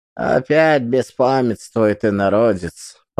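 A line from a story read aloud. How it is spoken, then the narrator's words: Muttering. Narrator (Russian): пробормотала Секлетея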